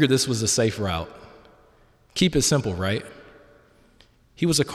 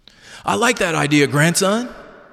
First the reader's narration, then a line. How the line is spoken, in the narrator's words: he exclaimed